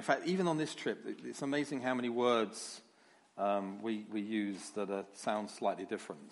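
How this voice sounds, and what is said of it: London English accent. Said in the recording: “my accent... I come from London, and people sometimes don't quite understand everything I say... I have the original English”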